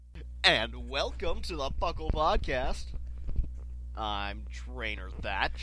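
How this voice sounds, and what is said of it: Game show host voice. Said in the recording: “game show voice”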